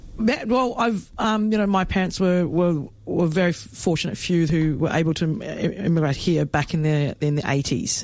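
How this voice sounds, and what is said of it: Australian accent. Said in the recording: “You've got an Australian accent.”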